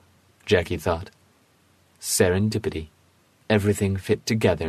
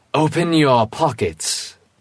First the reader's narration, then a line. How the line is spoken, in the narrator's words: he commanded in his best magician voice